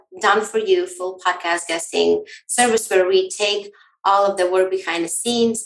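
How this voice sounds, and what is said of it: Slight Latvian accent. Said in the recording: “based in Europe, Latvia. So that's why you can hear my accent sneaking in a little bit.”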